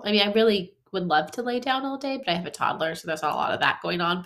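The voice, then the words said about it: Nasal, congested voice. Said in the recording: “I sound really nasally because I have a cold ... I just have a head cold, and I sound a lot worse than I feel ... the nasal sounding me”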